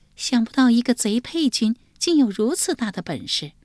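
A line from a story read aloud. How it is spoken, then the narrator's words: Long sigh. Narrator (Chinese): 张贵妃长叹一声说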